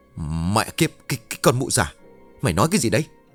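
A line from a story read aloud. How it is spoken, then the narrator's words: Stammered. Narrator (Vietnamese): lắp bắp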